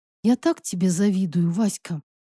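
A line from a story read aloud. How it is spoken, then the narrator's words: Sad sigh. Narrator (Russian): Грустно вздохнула подруга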